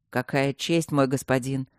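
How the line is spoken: Sarcastic, teeth chattering. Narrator (Russian): язвительно проговорил Люк, зуб на зуб не попадал

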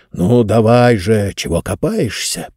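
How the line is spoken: Grumbling. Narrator (Russian): проворчал Джонс

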